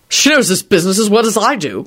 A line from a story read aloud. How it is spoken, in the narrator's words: Quentin barked out